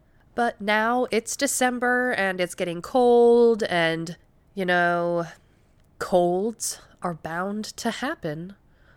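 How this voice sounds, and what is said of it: Rough, off-sounding voice from a cold. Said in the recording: “I don't know if you can tell with my voice ... my voice has been so jacked up ... why I sound a little weird”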